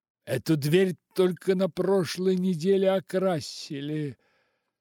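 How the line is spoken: Half plaintive, half angry. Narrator (Russian): произнес мистер Хиггинботом, не то жалобно, не то зло

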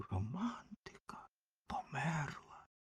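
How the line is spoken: Whisper. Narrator (Ukrainian): вогняний фонтан усе шепотів

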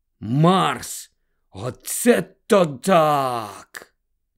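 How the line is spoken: Silent inner groan. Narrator (Ukrainian): Подумки застогнав

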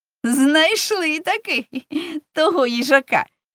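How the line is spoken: Laughing. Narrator (Ukrainian): засміявся Вася

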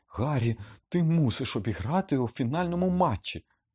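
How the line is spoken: Desperate exclamation. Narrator (Ukrainian): відчайдушно вигукнула Герміона

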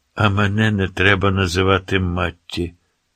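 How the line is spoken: Gloomy mutter. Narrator (Ukrainian): похмуро буркнув

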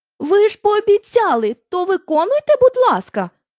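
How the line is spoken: Exclaimed. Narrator (Ukrainian): вигукнула Дороті

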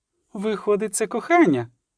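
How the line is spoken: Sigh. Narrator (Ukrainian): зітхнула

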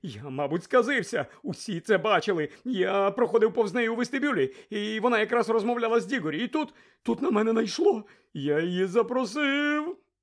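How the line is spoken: Groaning. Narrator (Ukrainian): Рон застогнав

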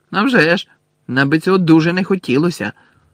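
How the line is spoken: Angry shout. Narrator (Ukrainian): Зі злістю крикнув Рон

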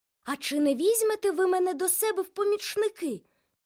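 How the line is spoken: Exclaimed. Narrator (Ukrainian): вигукнув Турі

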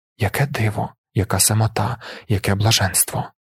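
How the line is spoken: Whispering. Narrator (Ukrainian): шепотів я

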